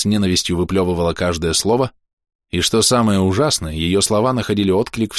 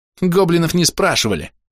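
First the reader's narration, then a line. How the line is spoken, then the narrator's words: Contemptuous snort. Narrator (Russian): с презрением фыркнула Хоули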